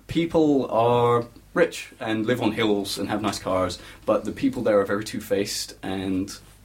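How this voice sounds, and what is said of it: Slight Californian accent. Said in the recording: “What's your accent, mate? ... I am kind of Californian. ... Kind of Californian? ... Kind of.”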